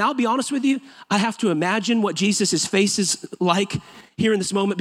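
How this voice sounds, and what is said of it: Usual voice. Nothing is said of it.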